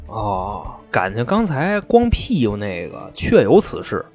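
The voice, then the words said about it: Quiet muttering voice. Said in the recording (Chinese): “小声嘟囔”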